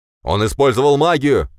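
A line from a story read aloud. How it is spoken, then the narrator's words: Shouting. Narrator (Russian): крикнул мажор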